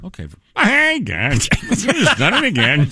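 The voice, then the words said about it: Mr. Magoo cartoon voice impression. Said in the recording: “Jim Backus. Good Jim Backus. ... That's the only impersonation I could do as a kid was Mr. Magoo.”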